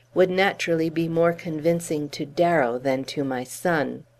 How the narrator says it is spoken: she said coldly

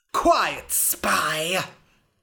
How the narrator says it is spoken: hissed the king

